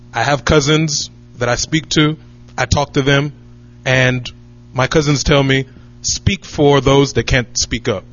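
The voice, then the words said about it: American accent. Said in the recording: “as you can tell from the accent, I was born and raised in America.”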